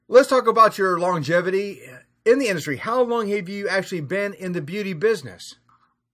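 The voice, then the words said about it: Thick Southern American accent. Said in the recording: “your Southern accent... sometimes it's a little thick”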